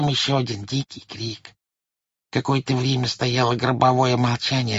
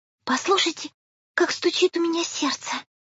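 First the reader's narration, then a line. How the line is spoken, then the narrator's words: Soft excited whisper. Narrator (Russian): тихо и взволнованно прошептала Майя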